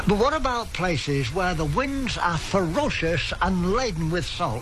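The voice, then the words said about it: Australian man with English accent. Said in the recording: “A very famous Australian voice with an English accent.”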